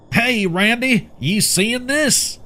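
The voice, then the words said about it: Rural hick accent. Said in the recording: “He spoke with that hick accent a lot of the locals tried to hide”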